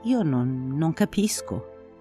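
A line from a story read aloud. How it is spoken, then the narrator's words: Perplexed murmur. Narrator (Italian): avevo mormorato perplesso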